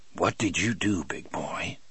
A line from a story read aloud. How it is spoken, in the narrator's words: asked in a low voice